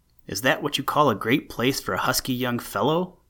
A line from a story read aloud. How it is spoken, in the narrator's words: Walter managed to find his voice and called feebly